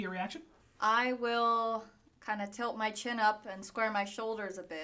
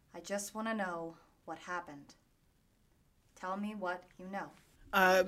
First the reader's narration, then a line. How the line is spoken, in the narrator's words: I will say equally quietly